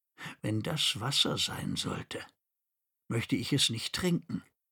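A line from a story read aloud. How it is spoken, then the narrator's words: Quiet. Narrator (German): sagte leise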